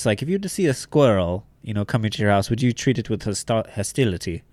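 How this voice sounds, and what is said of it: Bad German accent, sounds British. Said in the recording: “I'm doing a really bad German accent ... that's more of a British accent”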